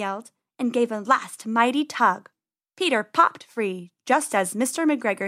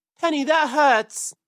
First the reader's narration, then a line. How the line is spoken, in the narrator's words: cried Peter as the thorns pulled his fur